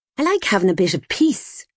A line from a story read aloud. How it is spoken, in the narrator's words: she'd snapped